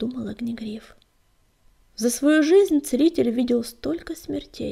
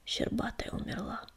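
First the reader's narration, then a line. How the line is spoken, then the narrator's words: Quiet pained answer. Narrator (Russian): тихо ответил Огнегриф, и сердце его снова заныло от боли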